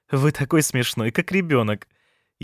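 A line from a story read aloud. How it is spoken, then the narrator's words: Ringing laughter, woman. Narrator (Russian): Женщина звонко рассмеялась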